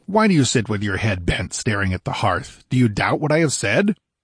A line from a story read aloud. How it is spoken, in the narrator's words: exclaimed Conan impatiently